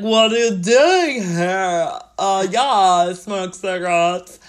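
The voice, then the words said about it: Alan Rickman's loud fake American accent. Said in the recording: “I love his American accent. ... He's very like loud.”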